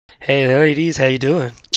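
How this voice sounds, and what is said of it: Deep seductive sexy voice. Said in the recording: “with the sexy, sexy voice”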